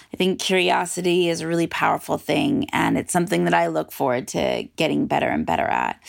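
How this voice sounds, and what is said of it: Raspy morning voice. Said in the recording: “Sorry for my raspy voice. This is what I sound like in the mornings when I'm just lazily being in bed”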